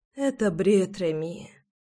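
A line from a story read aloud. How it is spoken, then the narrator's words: Sleepy whisper. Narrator (Russian): сонно прошептала Руслана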